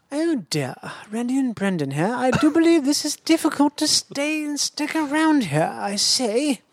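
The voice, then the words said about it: British aristocrat accent. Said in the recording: “I learned to do a voice recently. ... The voice is British guy, a British aristocrat.”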